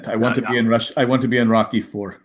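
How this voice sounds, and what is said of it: Put-on Russian accent. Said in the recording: “I do Russian accent.”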